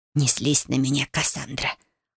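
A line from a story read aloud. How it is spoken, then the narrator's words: Whisper. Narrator (Russian): прошептала она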